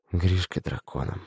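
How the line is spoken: Breathed out. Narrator (Russian): выдохнул Аркашка

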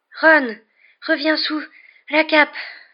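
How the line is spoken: Panting. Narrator (French): haleta Hermione

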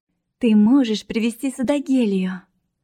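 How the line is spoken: Joyful. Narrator (Russian): радостно сообщила

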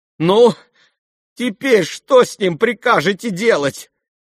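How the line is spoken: Exclamation. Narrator (Russian): воскликнула Лизавета Прокофьевна

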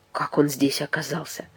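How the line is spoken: Quiet question. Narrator (Russian): тихо спросил Даниэль

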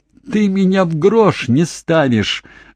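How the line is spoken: Yell. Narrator (Russian): завопила Мэгги

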